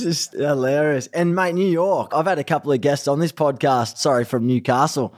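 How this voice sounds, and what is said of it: Strong broad Australian accent. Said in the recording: “You're still so Aussie ... My accent's even gotten harder. It's gotten stronger ... Ocker sounding Aussie”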